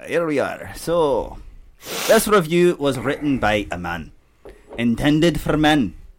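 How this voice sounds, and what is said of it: Put-on accent. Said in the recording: “Fucking lost my accent there.”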